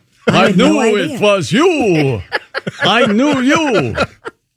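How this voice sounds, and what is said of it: Singing in a vampire accent. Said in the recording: “She does it with a vampire accent.”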